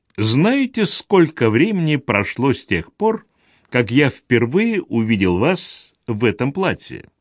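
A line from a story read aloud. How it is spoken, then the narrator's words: Sudden question. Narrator (Russian): Грандкорт внезапно спросил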